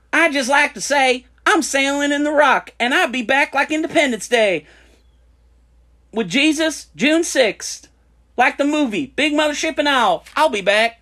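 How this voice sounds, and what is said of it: Put-on Southern Florida accent. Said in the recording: “More Florida. Southern Florida. ... did a voice”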